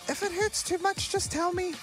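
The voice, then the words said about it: Small, little imitated voice. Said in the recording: “in her little voice”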